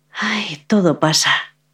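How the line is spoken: Woman sighing. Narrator (Spanish): suspiró la mujer

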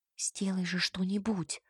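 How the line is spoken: Whisper. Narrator (Russian): шепнула я Кей

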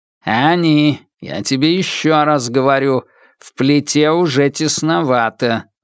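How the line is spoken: Grumbling. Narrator (Russian): ворчал Темса

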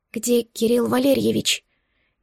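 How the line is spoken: Barely audible whisper. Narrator (Russian): Едва различимым шепотом спросила

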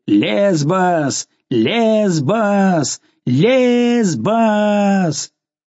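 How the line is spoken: Crowd yelling frenziedly. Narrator (Russian): все, обезумев от шума, орали

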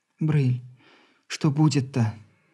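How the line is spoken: Quiet question, wife. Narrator (Russian): тихо спросила заглянувшая в комнату жена

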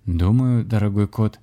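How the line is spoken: Sad, smiling. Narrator (Russian): грустно улыбнулся шаман

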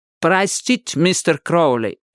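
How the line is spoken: Heavy foreign accent. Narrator (Russian): сказал он с сильным акцентом

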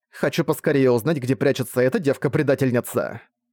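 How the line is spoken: Irritated voice. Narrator (Russian): Раздраженным голосом продолжила Лейла вслед за Вегой

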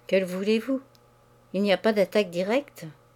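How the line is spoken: Stammering. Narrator (French): L'autre balbutia

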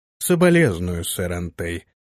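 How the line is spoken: Indifferent voice. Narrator (Russian): равнодушным голосом произнес барон

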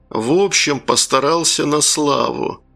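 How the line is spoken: Gritted, leader's voice. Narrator (Russian): процедил вожак

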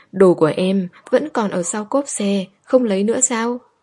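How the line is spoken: Sighing. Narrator (Vietnamese): Diệp Uyên thở dài

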